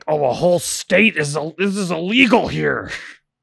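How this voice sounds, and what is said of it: Imitates another person's voice. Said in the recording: “my Clarence Thomas impersonation.”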